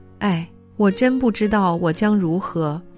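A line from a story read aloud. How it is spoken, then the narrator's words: Deep sigh. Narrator (Chinese): 路德深叹着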